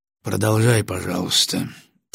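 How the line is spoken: Quiet request. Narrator (Russian): тихо попросил Батоныч

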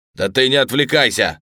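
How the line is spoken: Barking. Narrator (Russian): рявкнул Фелдер

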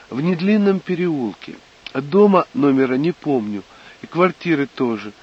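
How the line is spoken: Said, then laughing. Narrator (Russian): сказала Тоня и засмеялась

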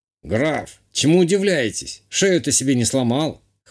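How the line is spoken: Old man snorting. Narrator (Russian): хмыкнул старик

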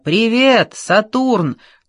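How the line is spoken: Very loud. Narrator (Russian): так громко, что Джордж невольно попытался прижать ладони к ушам

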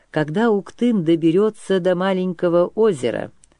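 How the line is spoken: Calm reply. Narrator (Russian): спокойно ответил сотник Сюр

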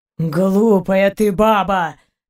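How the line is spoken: Groaning. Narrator (Russian): простонал Заури

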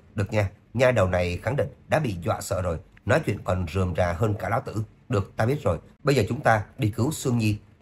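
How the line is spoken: Laughing. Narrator (Vietnamese): Dương Sách bật cười

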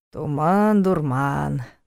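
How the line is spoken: Grumbling. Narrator (Russian): проворчал Ваня

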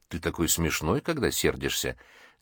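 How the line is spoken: Soft girlish laugh. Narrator (Russian): девушка негромко рассмеялась

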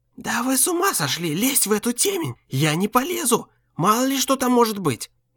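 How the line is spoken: Heated whisper. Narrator (Russian): горячо зашептал Бледевский

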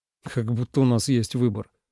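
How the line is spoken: Scoffing grunt. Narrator (Russian): хмыкнул Ленард

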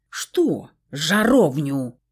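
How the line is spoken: Barked. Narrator (Russian): рявкнул блондин

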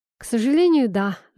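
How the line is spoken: Sighing. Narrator (Russian): вздохнул Игорь

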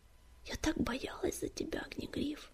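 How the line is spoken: Whisper. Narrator (Russian): прошептала Песчаная Буря

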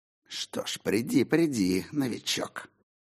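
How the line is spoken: Hiss, changed tone. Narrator (Russian): Прошипел он совсем другим тоном

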